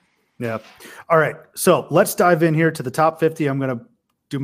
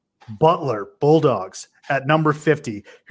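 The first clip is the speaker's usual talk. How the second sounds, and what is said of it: Imitates a sports announcer's voice. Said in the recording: “my best Jim Nance impression”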